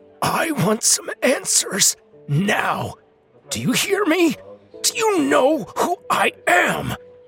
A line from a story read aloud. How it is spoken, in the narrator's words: His voice was cracking, and his words were coming out thick because of his parched throat and mouth